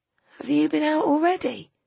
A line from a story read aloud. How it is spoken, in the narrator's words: said Sarinda sleepily